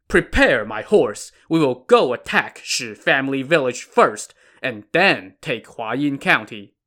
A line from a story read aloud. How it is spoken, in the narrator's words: Chen Da then shouted to his men